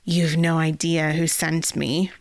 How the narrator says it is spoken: Rizal growled

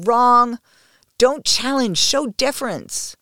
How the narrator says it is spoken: my mind is screaming

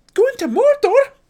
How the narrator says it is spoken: cried

